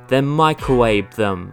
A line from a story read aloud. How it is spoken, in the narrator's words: Alex spat